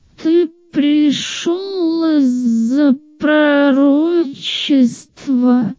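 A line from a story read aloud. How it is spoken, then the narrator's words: Lifeless creaky cat voice. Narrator (Russian): безжизненно проскрипел таинственный кот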